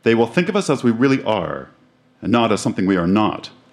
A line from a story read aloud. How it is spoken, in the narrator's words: answered Dale in a louder voice